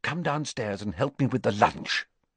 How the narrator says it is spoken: she whispered

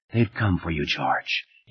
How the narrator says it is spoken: whisper

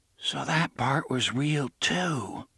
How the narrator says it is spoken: murmured

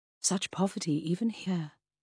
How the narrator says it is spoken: sighed

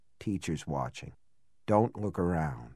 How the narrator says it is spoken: Then, in a lower voice

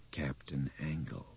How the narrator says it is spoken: Albert said in a low, horrified voice

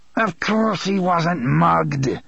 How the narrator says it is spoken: Elmer Chambers snarled

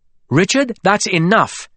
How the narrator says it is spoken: Gwendolyn said sharply

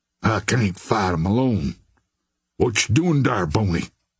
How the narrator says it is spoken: grumbled the Negro

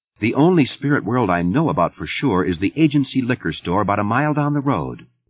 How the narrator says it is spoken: Liz said evenly

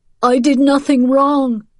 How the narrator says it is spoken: Paretsky cried, trying to pull free of Paul's grasp

